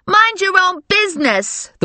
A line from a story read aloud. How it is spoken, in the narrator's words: the woman yelled at Grandma and Valerie